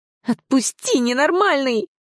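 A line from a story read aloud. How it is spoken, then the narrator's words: Shrill, struggling shriek. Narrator (Russian): взвизгнула, силясь вырваться из его хватки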